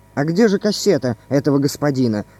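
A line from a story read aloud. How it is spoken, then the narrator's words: Plain. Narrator (Russian): спросил полицейский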